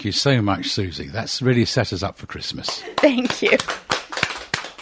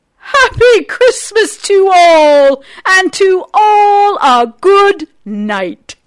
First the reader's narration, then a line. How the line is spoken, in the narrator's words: But I heard him exclaim